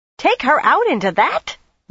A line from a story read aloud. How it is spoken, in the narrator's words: Linny screeched